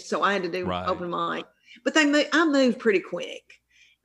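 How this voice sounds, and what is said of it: Strong Southern American accent. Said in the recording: “I'm from the South, and this is a real Southern accent... is that a real Southern accent?”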